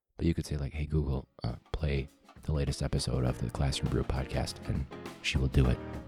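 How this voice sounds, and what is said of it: Whispering quietly. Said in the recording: “I'm gonna whisper it ... I'm quiet enough”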